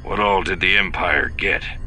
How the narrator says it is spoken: Lando sighed

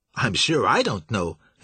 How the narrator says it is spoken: his housekeeper said

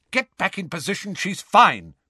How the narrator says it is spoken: barked Angelina

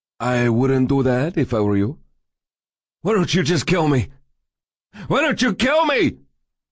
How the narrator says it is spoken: he screamed

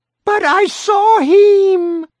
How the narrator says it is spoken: the mother screamed

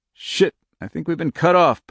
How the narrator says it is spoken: Puck muttered

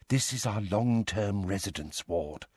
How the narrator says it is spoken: she informed Harry, Ron, Hermione and Ginny in a low voice

